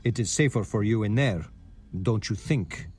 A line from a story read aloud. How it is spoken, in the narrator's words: he says in a serious tone